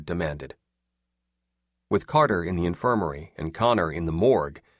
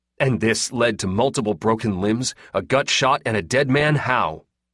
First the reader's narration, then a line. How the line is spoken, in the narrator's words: Edvard said sharply